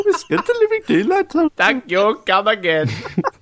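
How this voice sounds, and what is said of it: Poor imitation of a cartoon character. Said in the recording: “that didn't even sound like Apu when you tried to do Apu.”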